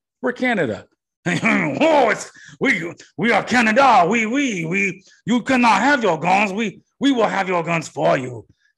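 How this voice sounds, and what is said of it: Bad put-on French accent. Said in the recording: “this is a bad French accent ... It's a bad French accent”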